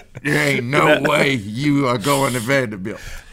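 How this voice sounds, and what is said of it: Imitates another person's voice. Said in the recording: “Pretty good impression”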